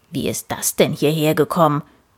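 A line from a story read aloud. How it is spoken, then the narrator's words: Grumbled. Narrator (German): brummte Papa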